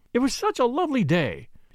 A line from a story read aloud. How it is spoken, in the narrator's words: she exclaimed